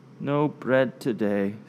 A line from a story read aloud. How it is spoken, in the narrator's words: said weakly